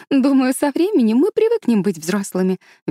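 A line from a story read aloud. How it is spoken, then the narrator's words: Cheerful. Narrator (Russian): весело предположила Энн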